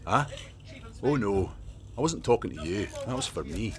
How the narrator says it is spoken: Logan said

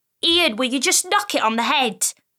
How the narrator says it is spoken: Amara snapped

